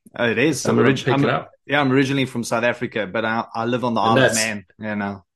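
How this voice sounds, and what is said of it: South African accent. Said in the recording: “is it a South African accent you got there?”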